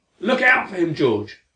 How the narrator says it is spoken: Larry shouted

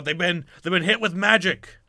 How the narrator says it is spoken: yells out

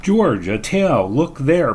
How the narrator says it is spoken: cried

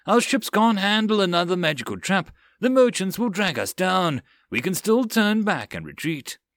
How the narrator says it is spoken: the first mate cried out

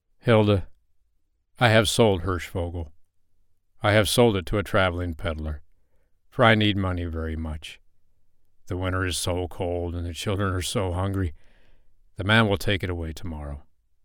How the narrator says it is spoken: the father said sadly

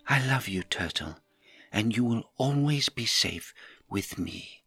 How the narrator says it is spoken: whispered in my ear

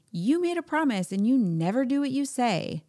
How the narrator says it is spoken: they yell

